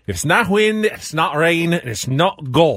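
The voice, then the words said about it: Inconsistent put-on Scottish accent. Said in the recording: “I'm not consistent in my accent ... Little groundskeeper Willie from The Simpsons kind of in there”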